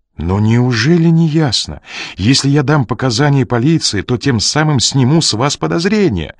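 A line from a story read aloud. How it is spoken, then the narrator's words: Exclaiming. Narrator (Russian): воскликнул Ренли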